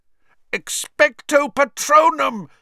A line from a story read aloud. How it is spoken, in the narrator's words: yelled, trying to blot the screaming from his ears